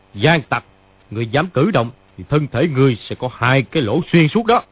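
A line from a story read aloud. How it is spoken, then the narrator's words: Shouting back. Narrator (Vietnamese): Dương Chí Thẳng quát lại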